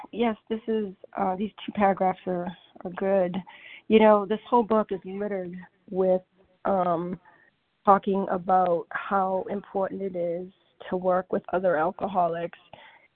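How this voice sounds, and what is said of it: Voice worn from illness. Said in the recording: “I'm actually recovering from COVID. Excuse my voice.”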